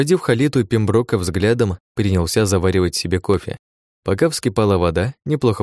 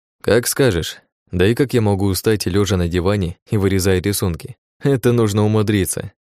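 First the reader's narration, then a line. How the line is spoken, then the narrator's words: Laughing. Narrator (Russian): рассмеялся я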